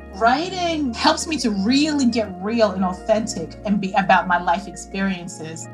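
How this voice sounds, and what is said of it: New York accent. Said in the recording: “As a New Yorker, your accent is like a warm hug to me.”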